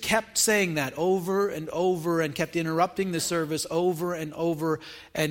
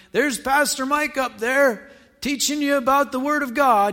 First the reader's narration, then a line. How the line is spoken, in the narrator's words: somebody in the congregation just keeps yelling